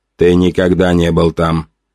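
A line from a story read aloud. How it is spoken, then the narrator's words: Plain. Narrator (Russian): сказала оно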